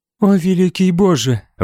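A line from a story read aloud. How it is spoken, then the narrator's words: Breathed out. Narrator (Russian): выдохнула Этельфлет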